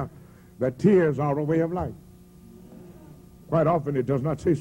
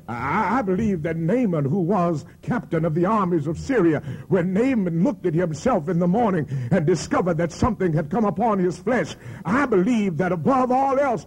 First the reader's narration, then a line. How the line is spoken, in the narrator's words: Naaman cried